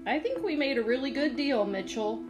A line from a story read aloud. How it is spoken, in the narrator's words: said, grinning happily